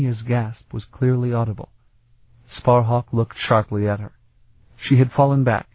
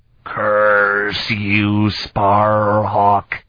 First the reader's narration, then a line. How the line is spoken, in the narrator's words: The words came out in a kind of rasping croak, as Zelasta dragged himself unsteadily to his feet